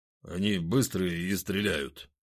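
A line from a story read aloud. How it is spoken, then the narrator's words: Grumbling. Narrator (Russian): пробурчал Захар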